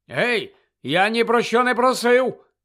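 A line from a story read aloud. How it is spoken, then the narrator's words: Shouted from a car. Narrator (Ukrainian): крикнув Колінс з машини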